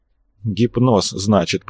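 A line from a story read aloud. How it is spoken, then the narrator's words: Muttering. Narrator (Russian): пробормотал Арцулов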